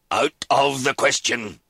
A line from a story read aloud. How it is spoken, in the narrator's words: his father roared